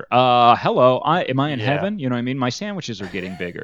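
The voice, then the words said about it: Impression of cartoon character Dagwood. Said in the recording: “my impression of Dagwood”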